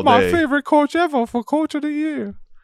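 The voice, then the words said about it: Good Adam Sandler impression. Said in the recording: “That was a really good Adam Sandler impression.”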